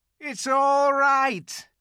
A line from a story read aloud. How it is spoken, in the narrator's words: he was shouting